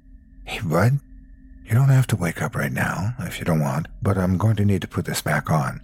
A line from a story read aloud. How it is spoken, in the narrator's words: whispered